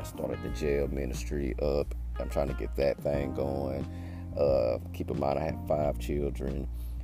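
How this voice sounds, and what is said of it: Tired-sounding voice. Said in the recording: “I'm a little tired today... that's kind of why my voice sounds the way it sounds”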